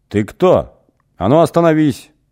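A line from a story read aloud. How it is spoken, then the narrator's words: Yelling in someone's face. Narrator (Russian): Заорал кто-то в лицо Эгину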